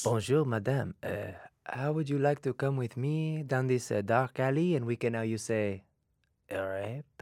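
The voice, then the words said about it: Put-on sexy French accent. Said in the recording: “it's in a sexy accent ... Just the accent”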